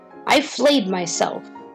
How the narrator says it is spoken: Angered, the queen spat out

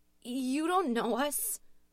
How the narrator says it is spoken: Louise shouted nervously, her voice beginning to shake

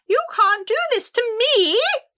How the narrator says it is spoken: Rosalba shrieked

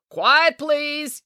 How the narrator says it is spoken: yelled the assistant director

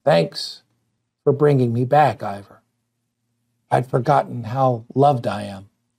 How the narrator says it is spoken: she said in a quiet voice

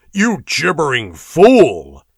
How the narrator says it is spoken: roared Dionysus disgustedly

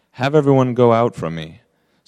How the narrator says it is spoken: Joseph could not control himself before all those who stood by him, and he cried

